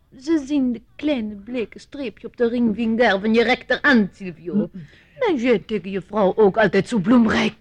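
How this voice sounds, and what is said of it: Put-on charming foreign accent. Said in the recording (Dutch): “dat buitenlandse accent ... dat charmante accent”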